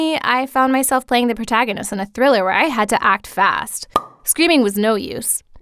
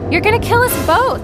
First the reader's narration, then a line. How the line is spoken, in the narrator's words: I shouted again